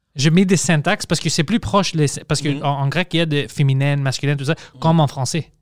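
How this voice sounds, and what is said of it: Unique accent in French. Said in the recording (French): “mon accent. Parce que personne a cet accent. Mes amis n'ont pas l'accent comme moi”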